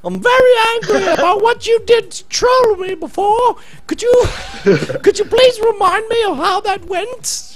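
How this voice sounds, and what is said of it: Put-on Australian accent, increasingly old-womanish. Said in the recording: “you got the voice down perfect ... the accent down here in Australia ... It's getting more and more old woman by the second, by the way, your impression. It's sliding dangerously in the pensioner.”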